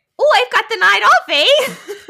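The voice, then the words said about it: Put-on Canadian accent. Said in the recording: “you have to do it in a Canadian accent.”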